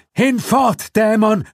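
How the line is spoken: Screaming. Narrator (German): schrie Roberts

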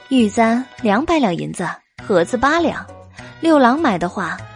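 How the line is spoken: Smiling cheerful voice. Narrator (Chinese): 白姬笑眯眯的说道

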